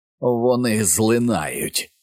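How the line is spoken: Muffled mocking creature hum. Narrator (Ukrainian): замугикало створіння здушеним глузливим голосом

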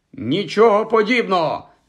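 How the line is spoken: Shouted. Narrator (Ukrainian): закричав Хаул

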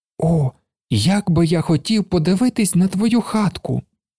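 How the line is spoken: Child exclaiming. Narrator (Ukrainian): Вигукнув малий

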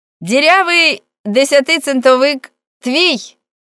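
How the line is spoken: Shouting downward. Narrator (Ukrainian): крикнув униз Френк

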